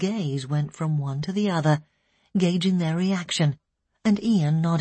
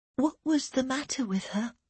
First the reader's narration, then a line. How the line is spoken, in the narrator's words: Elaine asked, her voice slight